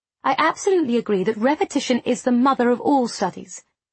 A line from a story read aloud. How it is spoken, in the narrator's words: said Beatrice Nash in a firm tone